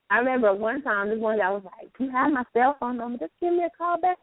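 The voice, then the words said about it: North Carolina accent. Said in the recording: “you can hear my accent ... sometimes my accent does creep out ... I'm from North Carolina”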